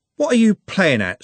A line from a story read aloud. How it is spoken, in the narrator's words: said Trev angrily